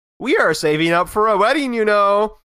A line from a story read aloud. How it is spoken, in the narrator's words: I said with a smile and a small chuckle